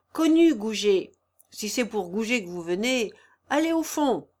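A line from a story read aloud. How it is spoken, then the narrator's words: Shout, cracked brassy voice. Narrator (French): il cria de sa voix qui sonnait le cuivre fêlé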